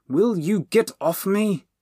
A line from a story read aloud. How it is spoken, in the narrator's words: Bernie said crossly